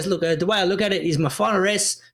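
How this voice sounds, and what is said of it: Attempted Italian accent. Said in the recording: “Did you just try to do a little Italian accent then?”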